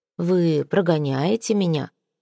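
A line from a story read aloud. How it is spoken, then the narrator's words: Soft inquiry. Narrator (Russian): осведомился виконт мягко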